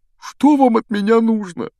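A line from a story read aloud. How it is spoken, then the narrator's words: Whiny teacher asking. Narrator (Russian): Плаксивым голосом спросил преподаватель защиты от темных искусств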